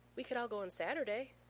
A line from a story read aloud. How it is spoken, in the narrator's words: John whimpers